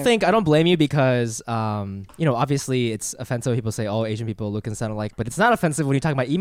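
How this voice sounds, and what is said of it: Usual voice. Nothing is said of it.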